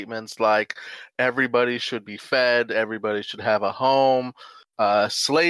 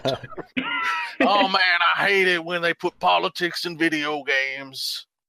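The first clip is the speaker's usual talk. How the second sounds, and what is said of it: Impression of a complaining gamer. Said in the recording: “this is my impression of every gamer”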